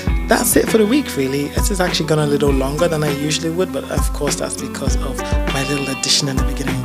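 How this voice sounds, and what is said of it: Slightly hoarse voice. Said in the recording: “I've been singing at the top of my voice, so if I sound a little hoarse”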